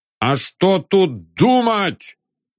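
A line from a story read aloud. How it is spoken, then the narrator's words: Shout. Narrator (Russian): крикнул Фёкл Антонович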